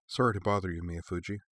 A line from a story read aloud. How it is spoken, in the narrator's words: Shizuka murmured in that instinctively lowered voice people used in hospitals